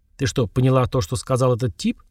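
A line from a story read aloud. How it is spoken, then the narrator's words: Quiet question. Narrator (Russian): тихо спросил я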